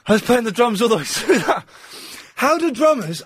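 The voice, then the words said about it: Out of breath, panting. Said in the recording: “I'm well out of breath ... I'm hyperventilating ... I'm well out of breath”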